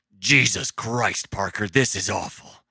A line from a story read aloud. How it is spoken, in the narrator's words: Rusty barked as he spat what he hadn't managed to swallow